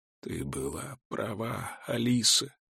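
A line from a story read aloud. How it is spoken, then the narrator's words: Muttering. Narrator (Russian): бормочет Симон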